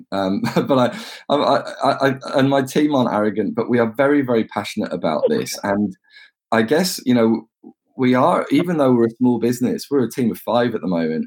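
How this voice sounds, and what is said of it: English accent. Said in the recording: “It's the English accent.”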